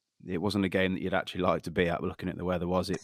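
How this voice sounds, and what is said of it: Slightly congested voice from cold. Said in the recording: “I've got a little bit of a cold”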